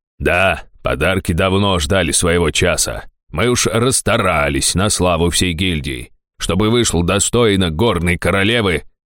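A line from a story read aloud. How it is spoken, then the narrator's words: Self-important, with a snort. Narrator (Russian): важно проговорил Фельдар и хмыкнул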